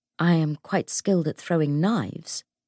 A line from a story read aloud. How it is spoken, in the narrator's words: James said calmly